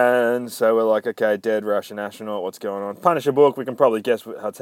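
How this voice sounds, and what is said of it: Usual voice. Nothing is said of it.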